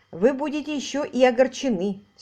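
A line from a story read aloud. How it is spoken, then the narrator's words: Angry statement. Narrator (Russian): сердито произнес инспектор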